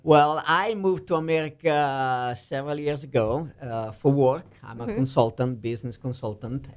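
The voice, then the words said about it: Italian accent. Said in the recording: “I like your accent. ... I'm from Milano, Italy.”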